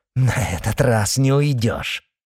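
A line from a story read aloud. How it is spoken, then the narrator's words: Angry shout. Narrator (Russian): злобно крикнула она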